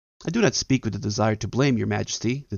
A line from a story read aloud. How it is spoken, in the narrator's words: the deer said